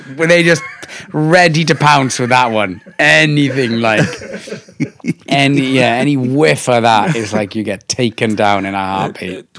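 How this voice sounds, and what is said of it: Thick Welsh accent. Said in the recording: “you still sound like you've got a pretty thick Welsh accent.”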